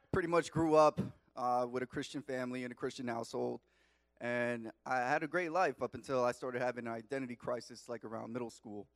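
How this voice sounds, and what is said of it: Long Island New York accent. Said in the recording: “I grew up in Long Island, New York, if you can't tell from my accent.”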